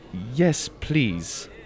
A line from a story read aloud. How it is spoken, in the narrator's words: said